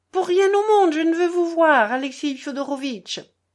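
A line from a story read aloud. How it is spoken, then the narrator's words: Exclaimed. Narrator (French): s'écria Lise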